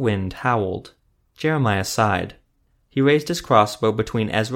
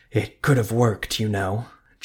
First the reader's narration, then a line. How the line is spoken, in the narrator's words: Jeremiah wheezed